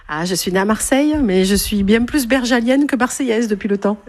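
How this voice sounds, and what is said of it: Southern French regional accent. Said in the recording (French): “son bel accent bergalien ... l'accent”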